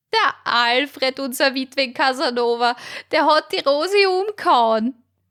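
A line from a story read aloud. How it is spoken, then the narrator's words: Thin woman shrieking. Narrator (German): kreischte die magere Martha los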